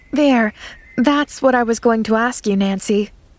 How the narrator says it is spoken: she sighed

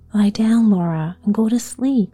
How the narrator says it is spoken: Ma said gently

